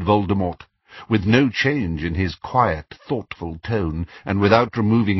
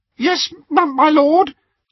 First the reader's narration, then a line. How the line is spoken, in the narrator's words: gasped a small man